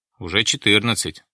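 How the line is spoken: Plain. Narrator (Russian): ответил Лебедев

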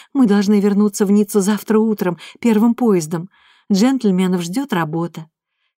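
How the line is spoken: Sighing, woman. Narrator (Russian): вздохнула Татьяна

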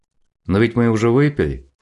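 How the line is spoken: Wry hmph. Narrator (Russian): хмыкнул Валера

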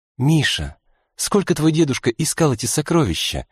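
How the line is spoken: Gentle question. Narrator (Russian): мягко поинтересовалась любимая женщина

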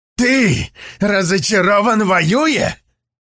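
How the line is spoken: Growl. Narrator (Russian): прорычал он

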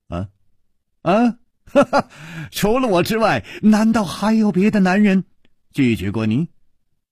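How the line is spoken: Amused, laughing. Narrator (Chinese): 楚留香笑着说

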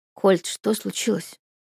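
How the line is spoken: Quiet pleading. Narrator (Russian): тихо спрашиваю я умоляющим тоном

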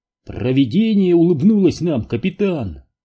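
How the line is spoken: Exclaiming chaplain. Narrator (Russian): воскликнул мистер Дан, румяный капеллан

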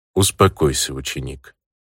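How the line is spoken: Calm even voice. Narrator (Russian): ровным голосом произнес мастер

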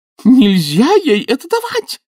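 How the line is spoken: Shrieked. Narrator (Russian): взвизгнула она

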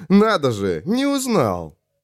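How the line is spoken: Stranger, short laugh. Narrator (Russian): коротко хохотнул пришелец

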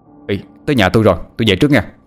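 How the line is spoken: Man shouting suddenly. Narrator (Vietnamese): Bỗng một chú la lên

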